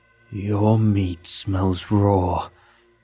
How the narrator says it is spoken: growled

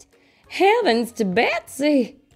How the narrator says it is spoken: she exclaimed

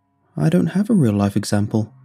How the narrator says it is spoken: he said, looking sadly at his feet

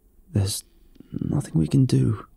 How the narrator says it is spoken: he croaked

